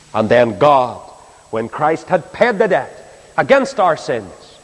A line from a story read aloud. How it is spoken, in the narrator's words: he cried